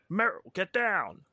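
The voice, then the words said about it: Imitates a video game character. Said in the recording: “a great impression. ... That was a good Snake.”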